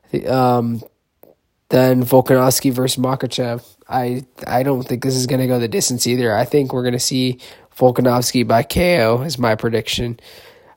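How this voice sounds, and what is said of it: Raspy voice. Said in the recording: “my voice is a little raspy. Been getting over whatever bug's been going around.”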